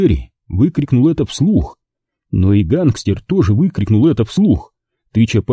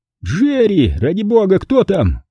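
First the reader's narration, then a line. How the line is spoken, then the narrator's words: Distant shout. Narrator (Russian): крикнул Аллан из глубин квартиры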